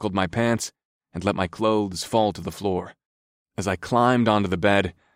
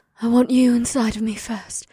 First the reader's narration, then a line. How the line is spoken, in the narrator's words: she breathed